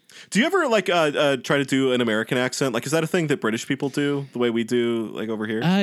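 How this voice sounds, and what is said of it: Usual voice. Nothing is said of it.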